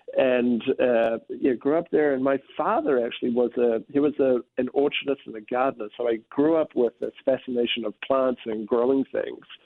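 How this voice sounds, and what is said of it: New Zealand accent. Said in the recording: “as you can probably tell from my accent, I'm from a little bit further south ... grew up in New Zealand, so I'm a Kiwi”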